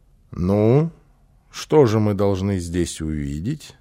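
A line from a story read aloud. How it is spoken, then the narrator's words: Plain question. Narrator (Russian): спросил папа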